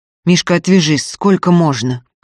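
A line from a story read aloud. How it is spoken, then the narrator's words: Gloomy muttering through teeth. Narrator (Russian): хмуро процедил Закатов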